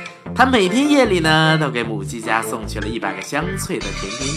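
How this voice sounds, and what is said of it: Usual voice. Nothing is said of it.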